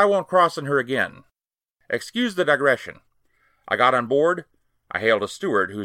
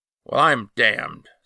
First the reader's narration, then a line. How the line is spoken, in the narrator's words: said he in a low voice